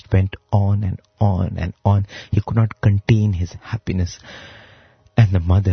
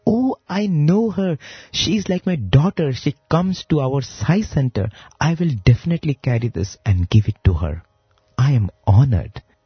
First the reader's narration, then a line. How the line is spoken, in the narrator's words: the man heard that name, in great joy, he exclaimed